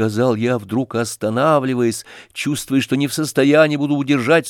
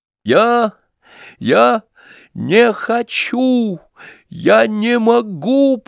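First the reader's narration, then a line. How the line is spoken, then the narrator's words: Breaking into desperate sobs. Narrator (Russian): проговорил я, и сдержанные рыдания, накопившиеся в моей груди, вдруг опрокинули преграду, удерживавшую их, и разразились отчаянным потоком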